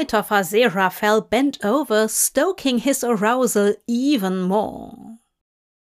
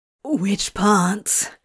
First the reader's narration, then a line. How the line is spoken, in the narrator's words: Crowley asked breathlessly, his whole body feeling like it was on fire